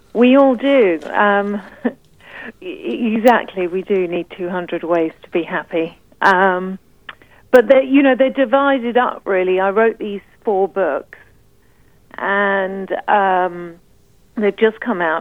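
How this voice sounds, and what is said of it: Speaks with a noticeable accent. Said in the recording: “You have a beautiful little accent.”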